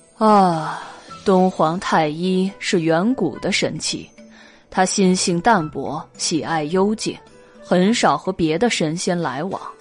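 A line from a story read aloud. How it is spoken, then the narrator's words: Sighing. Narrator (Chinese): 云中君叹了一口气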